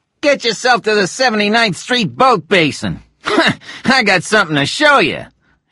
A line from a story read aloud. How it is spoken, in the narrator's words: laughed